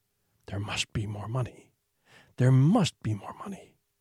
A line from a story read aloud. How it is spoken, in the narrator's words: a voice would start whispering